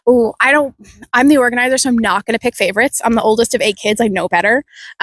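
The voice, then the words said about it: Canadian accent. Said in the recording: “As you can tell from my accent, I am not from here. I am Canadian.”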